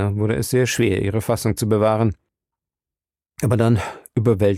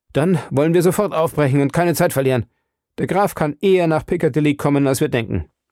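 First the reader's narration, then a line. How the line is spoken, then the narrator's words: Calling out. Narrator (German): Ich rief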